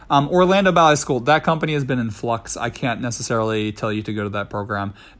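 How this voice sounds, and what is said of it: Strained voice, partly lost. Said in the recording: “I feel like I'm going to start losing my voice again ... my voice has been kind of tricky lately ... in the last two days, it's been going again ... now it's kind of gone”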